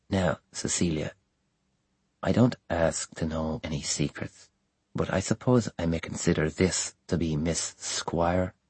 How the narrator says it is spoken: he continued in a low tone

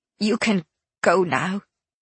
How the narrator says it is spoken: she said, tightly

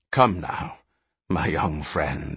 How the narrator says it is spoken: he whispered

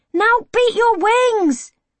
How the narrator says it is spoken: Harry yells

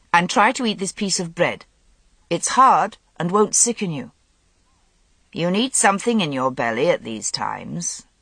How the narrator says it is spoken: Morgause said sternly

